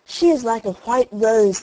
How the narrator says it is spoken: they cried

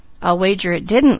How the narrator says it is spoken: laughed Douglas

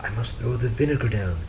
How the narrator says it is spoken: she whispered to Frederick

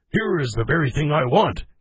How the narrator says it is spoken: he exclaimed

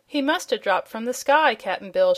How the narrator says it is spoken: she exclaimed

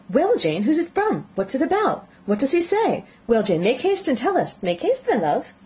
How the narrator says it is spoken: Bennet's eyes sparkled with pleasure, and she was eagerly calling out

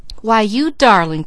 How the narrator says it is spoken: cried the nice lady

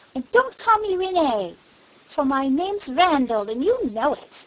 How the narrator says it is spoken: he cried

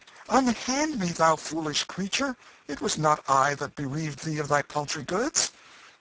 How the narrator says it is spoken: The king continued to struggle in the woman's strong grasp, and now and then cried out in vexation

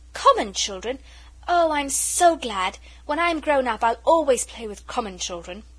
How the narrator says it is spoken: the little girl cried out

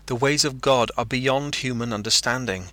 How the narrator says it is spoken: he cried

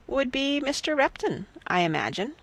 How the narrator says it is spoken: said Miss Bertram calmly

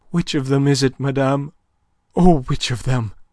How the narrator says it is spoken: gasped Aline, scarce daring to look, her senses swimming

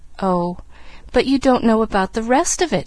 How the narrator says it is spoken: she reminded him, eagerly

